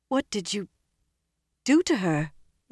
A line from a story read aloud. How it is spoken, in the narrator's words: Elaine asked faintly